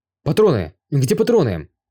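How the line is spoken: Exclaiming. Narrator (Russian): воскликнул Юй

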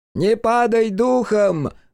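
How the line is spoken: Shouting. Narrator (Russian): крикнул ему Куваяма

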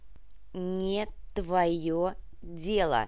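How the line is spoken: Slow, syllable by syllable. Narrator (Russian): медленно, почти по слогам произнес бандит

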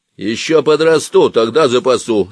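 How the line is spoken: Angry reply. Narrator (Russian): сердито ответил

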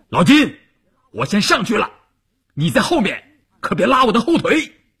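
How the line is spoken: Loud. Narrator (Chinese): 关山林大声地说

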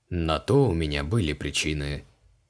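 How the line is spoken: Muttered. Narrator (Russian): пробурчал Криол

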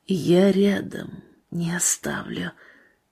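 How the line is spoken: Barely audible, quiet. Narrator (Russian): будто кто-то сказал тихо, едва слышно

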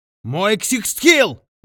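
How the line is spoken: Yelled. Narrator (Russian): заорал он

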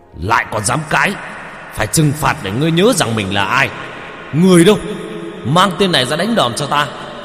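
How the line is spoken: Angry hiss. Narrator (Vietnamese): Ông quan lại rít lên

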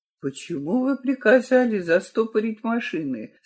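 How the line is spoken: Very quiet, to himself. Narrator (Russian): спрашивает Франк так тихо, словно говорит сам с собой

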